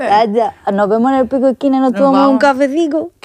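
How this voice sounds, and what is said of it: Put-on southern Spanish accent. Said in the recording (Spanish): “El acento sureño ... el acento?”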